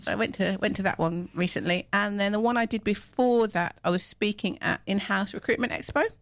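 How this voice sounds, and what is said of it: English Midlands accent. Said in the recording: “My Midland accent”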